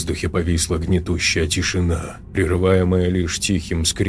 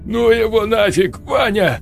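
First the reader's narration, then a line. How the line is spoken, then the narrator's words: Trembling plea. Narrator (Russian): взмолился Сергей дрожащим голосом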